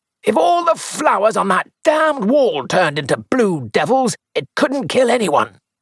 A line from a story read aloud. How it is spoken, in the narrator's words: he shouted